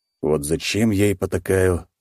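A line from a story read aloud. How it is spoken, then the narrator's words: Sigh. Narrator (Russian): вздохнул мужчина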